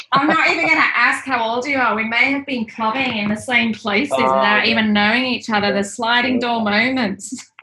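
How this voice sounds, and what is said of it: Leeds English accent. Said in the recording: “I'm hearing your accent. I didn't know it was Leeds.”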